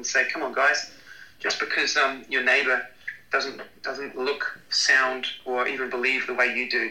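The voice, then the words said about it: New Zealand accent. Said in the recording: “coming from New Zealand, just with a strange accent”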